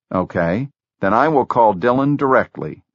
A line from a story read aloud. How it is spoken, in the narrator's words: Jobs said